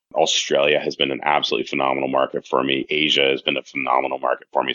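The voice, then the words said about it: Canadian English accent. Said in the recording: “I'm originally from Canada, if you haven't picked up the accent yet”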